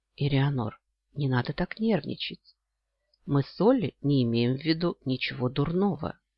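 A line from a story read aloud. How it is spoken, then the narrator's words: Heartfelt voice. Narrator (Russian): проникновенным голосом произнес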